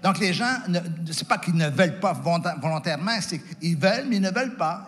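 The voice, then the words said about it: Quebec French accent. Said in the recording (French): “l'accent québécois”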